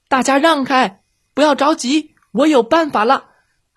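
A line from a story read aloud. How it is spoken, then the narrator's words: Shouting to everyone. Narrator (Chinese): 对大家喊道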